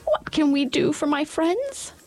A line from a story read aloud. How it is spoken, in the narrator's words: the queen herself, who asked her in her squeaky little voice